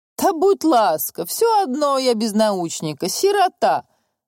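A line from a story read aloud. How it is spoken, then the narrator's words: Loud laughter. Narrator (Russian): захохотал Зейда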